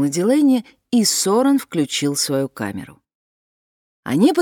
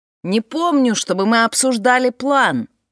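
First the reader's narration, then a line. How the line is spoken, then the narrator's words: Shouted over the wind. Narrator (Russian): прокричал Фрэнсис сквозь ветер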